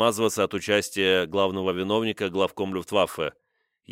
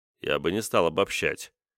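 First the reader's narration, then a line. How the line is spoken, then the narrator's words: Dry interruption. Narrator (Russian): сухо прервал истерику Кейтеля Карл Денец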